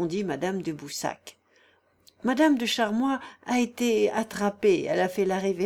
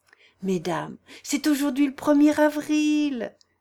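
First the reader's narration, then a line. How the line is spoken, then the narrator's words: Exclaimed. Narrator (French): s'écria Marie de Boussac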